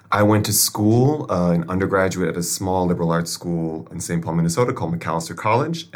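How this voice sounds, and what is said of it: Midwestern American accent. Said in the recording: “I am originally from the U.S. of A., Milwaukee, Wisconsin, if you can tell by my accent.”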